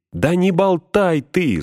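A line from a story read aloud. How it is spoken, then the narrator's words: Shouted. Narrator (Russian): закричал ему Фродо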